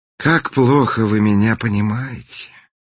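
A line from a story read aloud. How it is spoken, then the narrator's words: Sighing. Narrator (Russian): вздохнул принц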